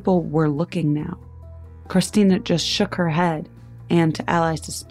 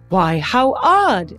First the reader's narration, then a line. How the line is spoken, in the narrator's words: the woman, oblivious, exclaimed